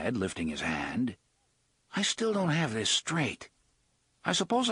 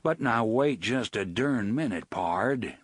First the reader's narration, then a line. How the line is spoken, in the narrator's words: Blaine said in his John Wayne voice